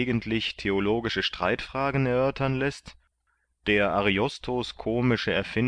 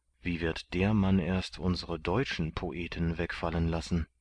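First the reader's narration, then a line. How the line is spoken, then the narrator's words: Murmured aside. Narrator (German): raunte er Martin zu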